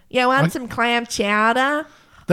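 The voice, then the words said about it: Weak attempted Boston accent. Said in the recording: “I can't do a Boston accent. ... That's more Long Island. ... I can never do it.”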